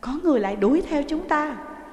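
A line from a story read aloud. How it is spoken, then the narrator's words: Panicked cry. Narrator (Vietnamese): Kha Lương hốt hoảng kêu lên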